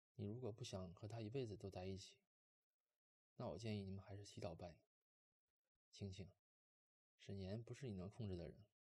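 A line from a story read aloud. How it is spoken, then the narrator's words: Calm, indifferent. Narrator (Chinese): 莫北淡淡的说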